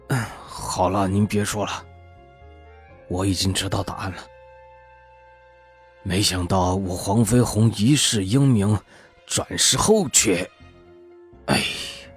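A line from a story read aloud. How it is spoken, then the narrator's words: Grief-stricken sigh. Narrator (Chinese): 胖子痛心疾首的叹息了一声道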